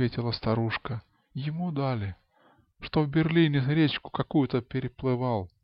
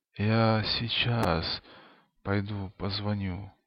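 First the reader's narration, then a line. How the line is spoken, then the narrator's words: Hoarse wheeze. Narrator (Russian): хрипло просипел хозяйке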